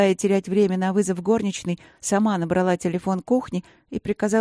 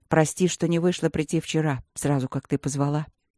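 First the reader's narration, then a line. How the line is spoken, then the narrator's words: Quiet and serious. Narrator (Russian): сказал он тихо и серьезно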